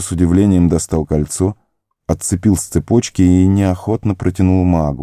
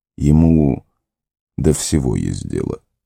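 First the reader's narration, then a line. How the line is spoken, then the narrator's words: Sighing. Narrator (Russian): вздохнул Гэндальф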